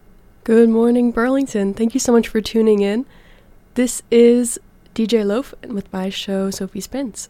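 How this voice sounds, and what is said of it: Sick-sounding voice. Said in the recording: “I'm a little sick, so please excuse my voice”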